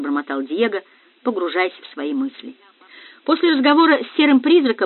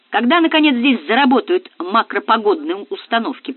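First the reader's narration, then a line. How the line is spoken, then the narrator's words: Grumbling. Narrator (Russian): проворчал Мансуров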